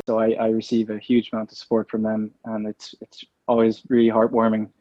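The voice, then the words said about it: Irish accent. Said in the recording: “you lived here for years, and you've kept your accent very well”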